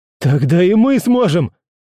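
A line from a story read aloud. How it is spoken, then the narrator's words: Shouted. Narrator (Russian): закричал я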